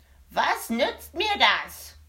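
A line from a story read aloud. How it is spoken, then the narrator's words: Small man shouting. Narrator (German): schrie der kleine Mann sie an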